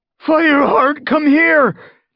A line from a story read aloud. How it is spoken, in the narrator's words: He yelled